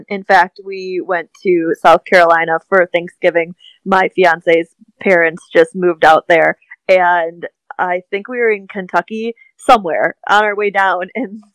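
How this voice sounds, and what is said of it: Midwest American accent. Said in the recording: “I definitely have a Midwest accent ... I have a Midwest accent”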